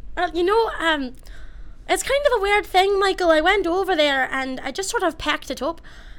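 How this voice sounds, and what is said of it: Irish accent. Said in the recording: “why are you speaking in an Irish accent?”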